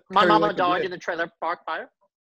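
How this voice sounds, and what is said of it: Put-on Irish traveller accent. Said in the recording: “Brad Pitt in Snatch... that pikey accent... I can do that accent the rest of the podcast”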